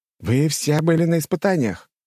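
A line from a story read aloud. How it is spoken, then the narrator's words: Snapping. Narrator (Russian): огрызнулся Дружков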